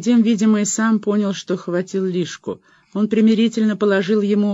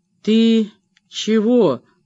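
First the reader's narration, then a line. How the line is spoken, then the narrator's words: Tense muffled male voice. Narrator (Russian): глухо сказал он, весь напрягаясь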